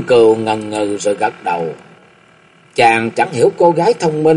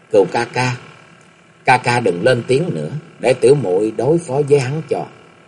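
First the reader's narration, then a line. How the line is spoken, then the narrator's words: Soft quiet voice. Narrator (Vietnamese): Dạng Phụng Chân khẽ báo Cung Cừu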